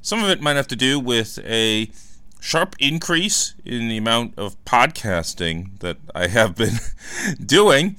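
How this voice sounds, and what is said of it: Strained, worn-out voice. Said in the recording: “I don't know if you can kind of hear it in my voice, I'm playing a little hurt today because my voice seems to have gone cuckoo in the last few days here”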